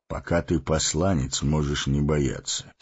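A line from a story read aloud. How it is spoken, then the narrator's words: Calm. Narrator (Russian): спокойно сказал Гэндальф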